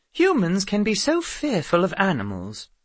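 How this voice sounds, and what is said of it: Educated-sounding accent. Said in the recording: “the chimpanzee said in an educated accent.”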